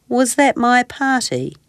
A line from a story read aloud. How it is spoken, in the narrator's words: He asked sadly